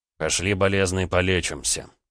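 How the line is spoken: Smirking grunt. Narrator (Russian): хмыкнул Гаранин

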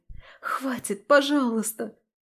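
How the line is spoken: Pleading. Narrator (Russian): Взмолилась

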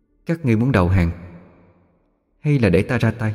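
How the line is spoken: Soft gentle voice. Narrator (Vietnamese): Giọng nói nhỏ nhẹ, không uy

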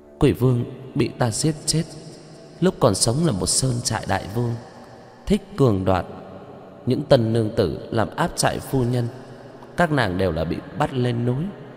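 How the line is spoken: Sighing. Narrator (Vietnamese): Chu Nga Hoàng thở dài

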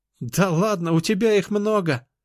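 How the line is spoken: Laughing sister. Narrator (Russian): рассмеялась сестра

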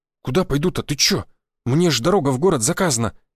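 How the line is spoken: Frightened blurt. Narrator (Russian): испуганно выпалил Федя

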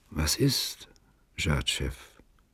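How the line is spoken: Quiet question. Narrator (German): fragte leise

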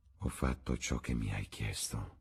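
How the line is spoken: Murmured. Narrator (Italian): mormorò Alan

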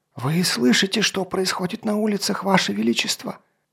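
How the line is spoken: Strained hissing. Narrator (Russian): надрывался шипением Гавен

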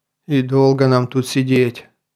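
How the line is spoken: Glum mumble. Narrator (Russian): уныло пробурчал Ташип

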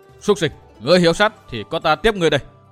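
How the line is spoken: Shout. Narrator (Vietnamese): Hoa Tử Hào quát

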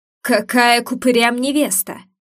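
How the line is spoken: Growled. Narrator (Russian): прорычал

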